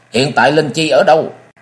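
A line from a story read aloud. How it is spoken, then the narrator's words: Old man, shouted question. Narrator (Vietnamese): Lão nhân đầu hói quát hỏi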